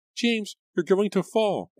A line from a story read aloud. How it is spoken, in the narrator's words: Angelica cried